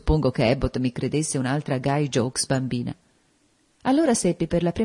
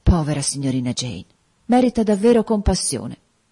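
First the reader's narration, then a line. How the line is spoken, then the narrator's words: Sighing. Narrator (Italian): Bessie sospirò, dicendo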